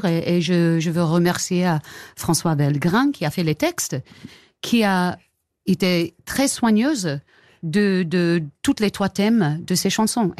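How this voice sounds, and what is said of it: Soft English accent speaking French. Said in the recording (French): “ça me fait penser à Jane Birkin à chaque fois ... ce doux accent euh, et ces, fautes euh, qu'on adore ... ça donne un charme exquis”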